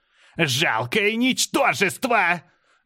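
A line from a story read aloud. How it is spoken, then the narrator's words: Angry shout. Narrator (Russian): гневно закричала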